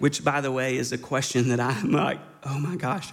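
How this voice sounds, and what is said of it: Usual voice. Nothing is said of it.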